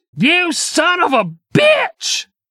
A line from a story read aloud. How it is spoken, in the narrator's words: his voice cracked